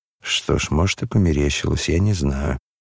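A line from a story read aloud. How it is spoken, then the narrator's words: Muttering. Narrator (Russian): бормотал Парфен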